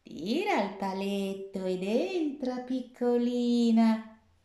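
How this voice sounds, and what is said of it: Wolf speaking in old woman's voice. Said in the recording (Italian): “fa il lupo con la voce da vecchina”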